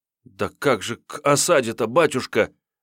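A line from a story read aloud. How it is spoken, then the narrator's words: Sobbing. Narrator (Russian): зарыдал Фимка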